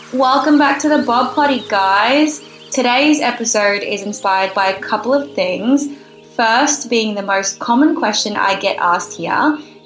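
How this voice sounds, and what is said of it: Australian accent. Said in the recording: “oh my God, do you have an accent? And I mean, yes, I do ... a pretty common Aussie saying”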